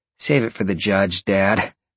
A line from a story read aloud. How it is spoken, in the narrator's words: Roxy laughed